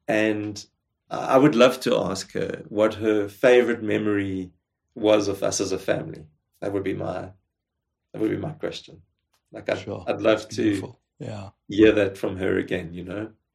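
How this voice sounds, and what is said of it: Teary, emotional voice. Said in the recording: “I'm getting a bit teary”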